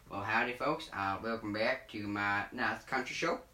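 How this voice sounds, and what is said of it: Put-on country accent. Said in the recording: “I'm going to stop doing this accent because it's really hard and I'm actually a country folk”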